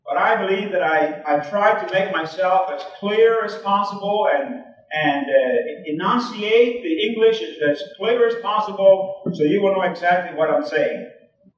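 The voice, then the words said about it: Speaker's own non-native accent. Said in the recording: “because of my accent. And I'm not ashamed of it, really. I'm not ashamed of my accent.”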